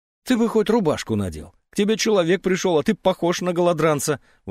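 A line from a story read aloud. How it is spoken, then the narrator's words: Indignant exclamation. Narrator (Russian): воскликнула Лидия Сергеевна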